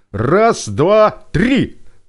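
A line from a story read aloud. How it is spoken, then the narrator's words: Shouted. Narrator (Russian): выкрикнул Сева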